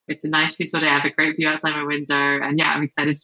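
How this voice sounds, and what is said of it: English accent. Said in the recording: “despite my English accent”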